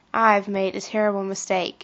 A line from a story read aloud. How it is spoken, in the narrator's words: she said with a sigh